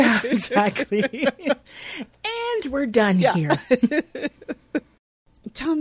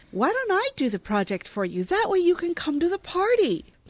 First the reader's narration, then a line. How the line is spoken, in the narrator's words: Jenna offers eagerly